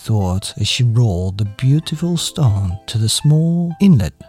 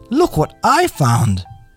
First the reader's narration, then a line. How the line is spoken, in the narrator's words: shouted triumphantly